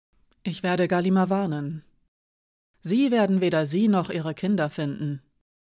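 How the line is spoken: Calm. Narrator (German): sagte Hiraya ruhig

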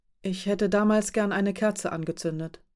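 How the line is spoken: Quiet. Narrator (German): sagte sie leise

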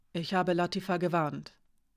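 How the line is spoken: Quiet. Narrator (German): sagte sie leise

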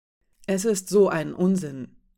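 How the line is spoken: Plain. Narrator (German): sagte Rasch

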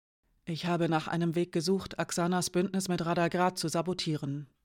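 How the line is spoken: Quiet speech. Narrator (German): sagte Hiraya leise

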